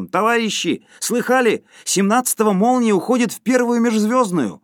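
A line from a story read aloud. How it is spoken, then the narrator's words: Ringing tenor shout. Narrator (Russian): Кто-то в другом конце зала крикнул звонким тенором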